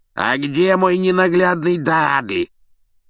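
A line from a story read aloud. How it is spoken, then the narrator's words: Hoarse bark. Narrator (Russian): хрипло гаркнула тетушка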